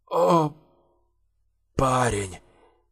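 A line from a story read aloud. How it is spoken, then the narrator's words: Whisper. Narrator (Russian): шептал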